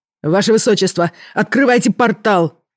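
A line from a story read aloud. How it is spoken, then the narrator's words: Guard shouting. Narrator (Russian): крикнул стражник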